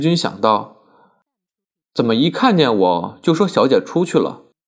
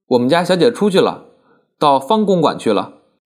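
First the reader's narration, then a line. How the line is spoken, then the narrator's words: Smiling, attentive. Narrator (Chinese): 仆人们…对他特别殷勤…含笑说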